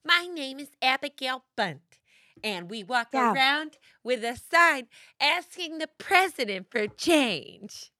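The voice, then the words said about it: High-pitched character voice. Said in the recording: “You don't do any characters with a high-pitched voice... The feminist woman.”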